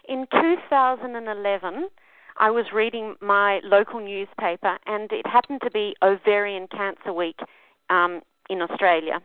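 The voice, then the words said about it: Speaks with a noticeable accent. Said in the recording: “we're all going to enjoy your accent, so you could talk the whole show”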